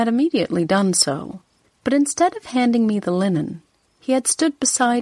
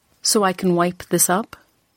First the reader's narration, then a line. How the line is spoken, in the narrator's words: I had said coldly